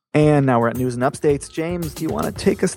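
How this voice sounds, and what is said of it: Announcer-style radio voice. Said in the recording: “That was my best radio voice ... attempt. That was pretty good. ... that was really good”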